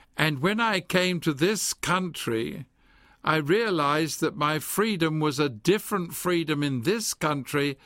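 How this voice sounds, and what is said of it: English accent. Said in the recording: “I'm an Englishman ... Many people tell me my accent is still there.”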